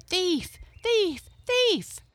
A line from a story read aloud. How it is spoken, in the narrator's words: all the meadow people and all the forest folks cried